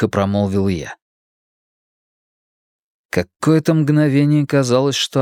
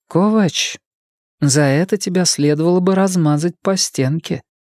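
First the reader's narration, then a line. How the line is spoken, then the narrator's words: Calm statement. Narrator (Russian): спокойно произнесла Артега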